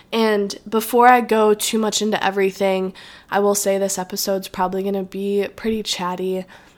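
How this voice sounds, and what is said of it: Nasal, congested voice. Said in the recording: “my voice is kind of all over the place ... this little tickle like in my throat ... I sound pretty nasally”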